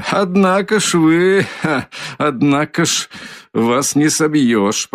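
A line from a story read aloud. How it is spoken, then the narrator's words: Said laughing openly. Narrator (Russian): проговорил он, смеясь откровеннейшим образом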